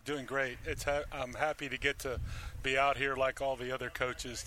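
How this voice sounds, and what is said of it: Gentle Texas twang. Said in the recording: “You've got that gentle Texas twang.”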